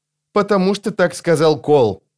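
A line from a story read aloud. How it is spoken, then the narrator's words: Irritated, curt. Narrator (Russian): раздраженно отрезал Крокус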